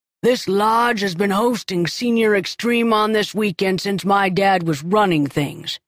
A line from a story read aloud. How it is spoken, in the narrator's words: Dale shout